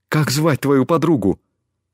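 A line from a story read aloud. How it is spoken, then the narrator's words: Excited question. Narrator (Russian): Взволнованно спросил он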